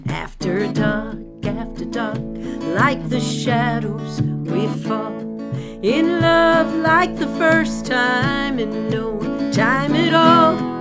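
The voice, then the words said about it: Sings in a country song style. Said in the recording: “my my impression of a country song”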